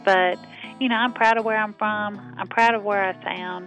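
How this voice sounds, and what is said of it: Southern American accent. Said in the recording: “I'm Southern... I don't want to lose my accent”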